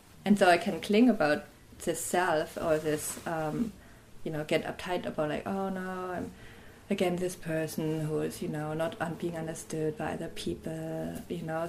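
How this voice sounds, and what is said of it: Fast speech with German accent. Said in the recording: “my fast speech and my German accent”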